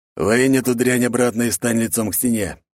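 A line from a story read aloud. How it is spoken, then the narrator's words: Steely man's gritted words. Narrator (Russian): Добавив в голос нотку стали, процедил коренастый мужик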